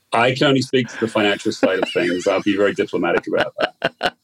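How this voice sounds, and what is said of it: British accent. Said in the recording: “in his British accent with a stiff upper lip”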